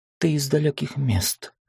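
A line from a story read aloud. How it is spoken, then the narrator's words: Thoughtful. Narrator (Russian): задумчиво сказал он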